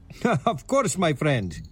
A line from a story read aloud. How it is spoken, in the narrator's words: he laughs